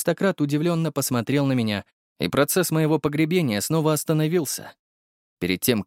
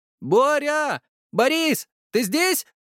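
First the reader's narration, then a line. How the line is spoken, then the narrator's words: Shouted. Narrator (Russian): крикнул Дмитрий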